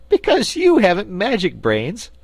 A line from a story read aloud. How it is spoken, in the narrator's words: laughed Scraps